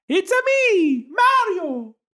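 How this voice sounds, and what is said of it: Cartoonish Italian-accented video game character voice. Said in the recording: “your best Mario impression”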